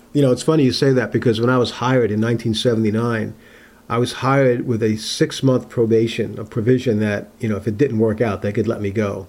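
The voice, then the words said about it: New York accent. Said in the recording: “When we hear your voice, we know in an instant that it's not a Maine accent we're hearing ... the New York accent ... This Italian from New York ... my New York accent”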